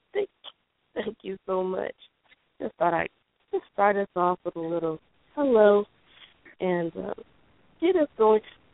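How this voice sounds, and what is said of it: Unwell, under-the-weather voice. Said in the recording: “excuse my voice. I'm a little under the weather”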